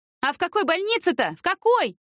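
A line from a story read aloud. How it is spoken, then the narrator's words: Shouting. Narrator (Russian): крикнула Яна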